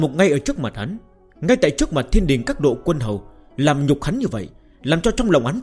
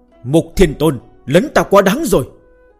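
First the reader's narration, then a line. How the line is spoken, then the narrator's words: Sudden angry shout. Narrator (Vietnamese): Hạo Thiên Đế đột nhiên giận dữ hết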